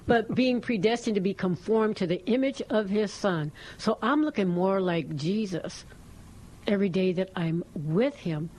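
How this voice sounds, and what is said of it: Strong Texas Southern accent. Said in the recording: “I have the strongest Texas accent, Southern accent.”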